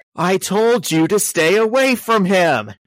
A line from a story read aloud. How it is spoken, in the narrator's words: Peter yells at her